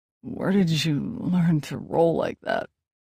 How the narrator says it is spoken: he muttered, his voice low and broken

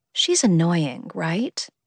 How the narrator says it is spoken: Mari said under her breath

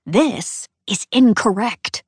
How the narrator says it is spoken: I hiss

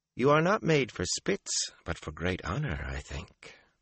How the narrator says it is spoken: Melindra said softly

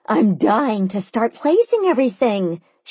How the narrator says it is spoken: she exclaimed

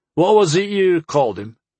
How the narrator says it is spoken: Harm chuckled

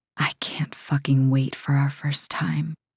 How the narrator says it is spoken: he whispers

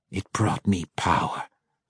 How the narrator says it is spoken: Vierna growled back

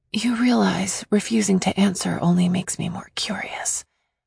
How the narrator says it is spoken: I whispered

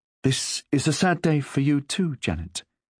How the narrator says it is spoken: Marjorie said kindly

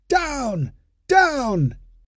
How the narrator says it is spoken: the ushers on the balcony waved their hands and shouted with all their strength

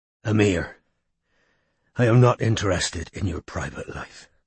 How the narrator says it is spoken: panted Strike

